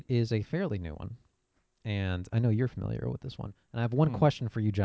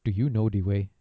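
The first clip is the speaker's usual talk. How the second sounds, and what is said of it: Put-on Ugandan accent meme. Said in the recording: “You speak in a quote-unquote Ugandan accent when you say, do you know the way?”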